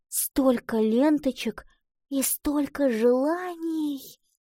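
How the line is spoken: Heartfelt whisper. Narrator (Russian): с чувством прошептала она

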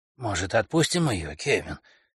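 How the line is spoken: Quiet old man. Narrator (Russian): тихо проговорил старик

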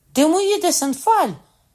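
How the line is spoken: Cried out. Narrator (Ukrainian): скрикнув

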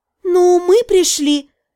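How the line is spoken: Uncertain mumble. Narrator (Russian): неуверенно пробормотала я

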